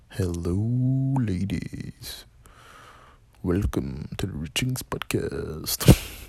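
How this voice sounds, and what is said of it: Smooth, suave jazz-host voice. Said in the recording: “my Don Julio fucking smooth jazz ... What accent is that? Fucking trash.”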